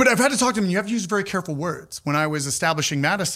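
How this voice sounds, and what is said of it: Usual voice. Nothing is said of it.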